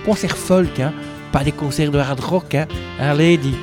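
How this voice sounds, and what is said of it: Belgian French accent. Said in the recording (French): “J'ai mon accent parfois qui revient. ... l'accent belge”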